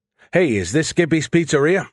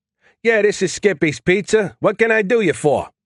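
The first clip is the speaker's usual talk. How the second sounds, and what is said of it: Stereotypical New York accent. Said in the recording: “His voice changed to a stereotypical New York accent.”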